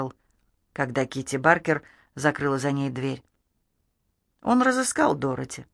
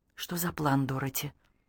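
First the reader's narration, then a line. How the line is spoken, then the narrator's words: Whisper. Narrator (Russian): прошептала Лорел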